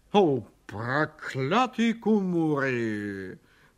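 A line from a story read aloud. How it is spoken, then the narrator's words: Grumbling. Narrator (Russian): проворчал он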